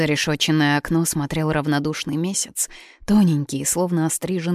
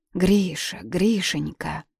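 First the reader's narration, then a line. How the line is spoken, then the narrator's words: Quiet moaning call. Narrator (Russian): кто-то тихонько стонал и звал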